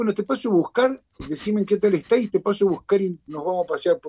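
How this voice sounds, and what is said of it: Put-on regional Argentine accent. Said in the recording (Spanish): “Te sale bien, ¿eh?... yo soy bueno para los acentos”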